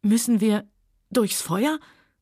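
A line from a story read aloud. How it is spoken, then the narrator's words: Trembling question. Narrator (German): fragte Scarlett mit zitternder Stimme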